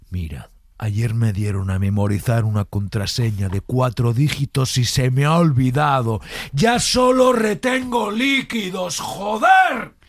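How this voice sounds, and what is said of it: Shifts from whisper to angry shout. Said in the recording (Spanish): “la transición del bajo al alto, del susurrado ... al enfadado”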